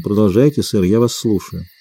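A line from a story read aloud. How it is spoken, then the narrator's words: Icy tone. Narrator (Russian): сказала ледяным тоном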